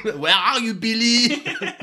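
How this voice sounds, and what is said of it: Exaggerated French accent character voice. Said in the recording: “he's French ... Literally like that kind of level of accent.”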